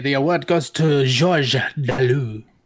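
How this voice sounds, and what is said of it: Terrible put-on French accent. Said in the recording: “a terrible French accent”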